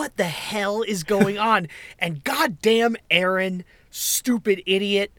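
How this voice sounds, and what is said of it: Usual voice. Nothing is said of it.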